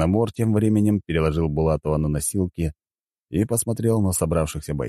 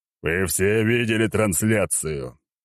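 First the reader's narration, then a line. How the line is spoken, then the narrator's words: Echoing roar. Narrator (Russian): прорычал он так, что голос его эхом разнесся на многие километры вокруг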